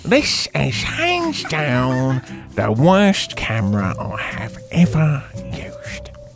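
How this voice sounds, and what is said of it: Put-on funny character voice. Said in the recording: “Do it in the funny voice. ... he will have a funny voice.”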